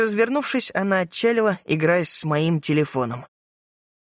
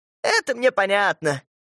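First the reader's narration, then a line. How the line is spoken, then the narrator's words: Laughing. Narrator (Russian): мамаша засмеялась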